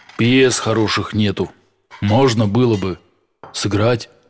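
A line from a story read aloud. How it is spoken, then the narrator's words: Quiet. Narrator (Russian): сказал он негромко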